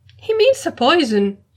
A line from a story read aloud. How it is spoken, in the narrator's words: exclaimed